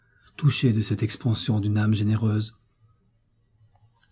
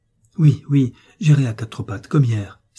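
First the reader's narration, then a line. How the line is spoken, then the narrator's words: Child exclaiming. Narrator (French): s'écria l'enfant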